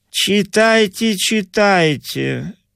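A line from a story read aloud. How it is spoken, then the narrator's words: Wooden encouraging tone. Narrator (Russian): деревянным тоном ободрил толстый инженер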